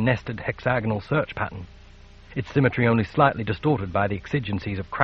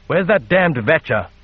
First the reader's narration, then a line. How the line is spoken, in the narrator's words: the captain snapped